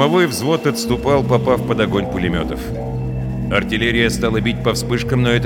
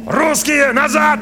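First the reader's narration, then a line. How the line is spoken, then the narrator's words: Shout. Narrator (Russian): крикнул он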